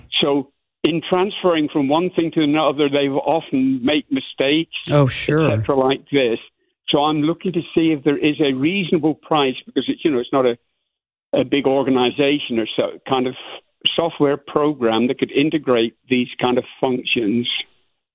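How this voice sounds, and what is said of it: Mixed Cornish-Scottish British accent. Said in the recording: “Where is your accent from ... It's confused. I was born in the southwest of England, which is Cornwall. ... But I went to school in Scotland. I moved out to the U.S. in 1978, and then in 1999 I moved out to Australia”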